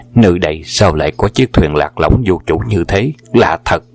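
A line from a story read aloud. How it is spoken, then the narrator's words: Muttering to himself. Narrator (Vietnamese): Hoàng Dược Sư lẩm bẩm tự nhủ lấy mình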